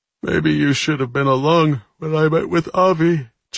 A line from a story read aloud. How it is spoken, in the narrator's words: Jack observed with a yawn